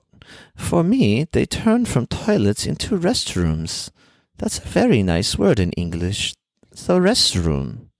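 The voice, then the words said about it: Put-on foreign accent. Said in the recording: “stop the stupid accent”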